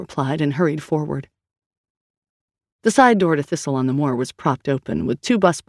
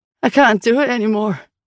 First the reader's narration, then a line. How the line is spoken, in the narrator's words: he said, his voice high and shaking